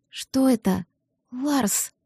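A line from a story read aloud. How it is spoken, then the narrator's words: Faint whisper. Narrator (Russian): прошептала, едва сумев пошевелить губами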